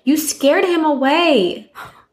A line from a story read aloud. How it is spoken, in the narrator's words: proceeded to get very angry and yelled